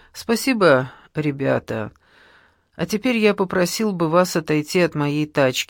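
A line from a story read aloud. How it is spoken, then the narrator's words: Calm reply. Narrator (Russian): ответил Малинари спокойно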